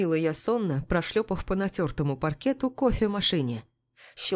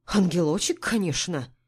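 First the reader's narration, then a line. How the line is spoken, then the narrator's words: Scornful snort. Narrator (Russian): фыркнула Клара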